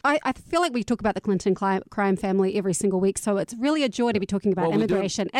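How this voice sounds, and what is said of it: Foreign accent. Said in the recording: “As an immigrant myself, as you may have noticed from this accent of mine.”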